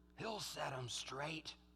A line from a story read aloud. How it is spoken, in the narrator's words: Someone whispered